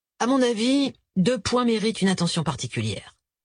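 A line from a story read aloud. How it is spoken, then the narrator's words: Professional tone. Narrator (French): continua-t-il d'un ton professionnel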